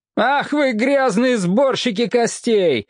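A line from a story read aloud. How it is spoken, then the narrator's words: Man's yell. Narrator (Russian): завопил некий мужчина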